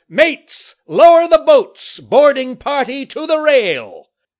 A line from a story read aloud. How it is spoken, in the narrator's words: bellowed out